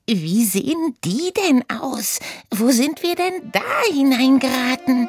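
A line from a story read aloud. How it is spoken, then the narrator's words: Squealing. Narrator (German): quiekte Oda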